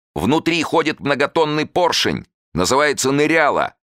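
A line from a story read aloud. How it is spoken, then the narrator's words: Shout. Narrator (Russian): крикнул Васильев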